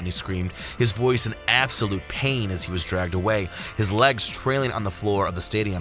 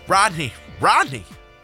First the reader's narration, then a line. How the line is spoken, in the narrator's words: cried out